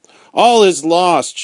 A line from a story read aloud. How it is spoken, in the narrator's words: she cried to Mr